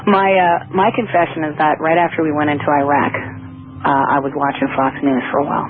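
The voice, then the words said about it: Hoarse voice from laryngitis. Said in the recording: “I hope you can understand my voice. I actually really do have laryngitis... It's not a morning voice.”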